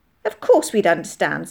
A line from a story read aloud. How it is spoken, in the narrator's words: said Molly indignantly